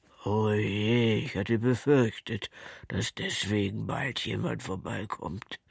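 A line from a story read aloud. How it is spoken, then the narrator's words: Contrite, sad sigh. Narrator (German): seufzte Butterkeks und guckte so zerknirscht und traurig drein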